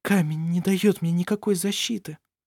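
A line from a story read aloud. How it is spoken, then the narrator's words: Frightened thought. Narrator (Russian): подумала она испуганно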